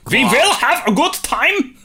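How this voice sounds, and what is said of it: Put-on German accent. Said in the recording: “Doing the German accent again, that's class.”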